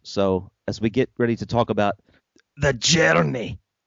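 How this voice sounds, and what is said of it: Exaggerated Scottish accent, Shrek-style. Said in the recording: “you don't have to add the pathos ... I'm really doing a Shrek impersonation. I'm impersonating Shrek impersonating a Scottish person”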